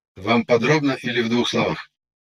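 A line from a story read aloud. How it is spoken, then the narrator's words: Businesslike AI voice. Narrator (Russian): Деловым тоном поинтересовался искусственный интеллект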